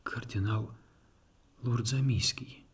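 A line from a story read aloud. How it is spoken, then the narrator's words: Resurrected man whispering. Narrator (Russian): прошептал воскресший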